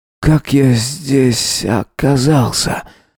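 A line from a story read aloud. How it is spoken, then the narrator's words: Hoarse question. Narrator (Russian): спросил охрипшим голосом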